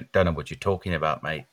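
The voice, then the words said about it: Put-on Australian accent. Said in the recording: “Very Australian accent.”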